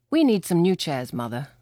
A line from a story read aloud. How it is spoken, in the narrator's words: said Martin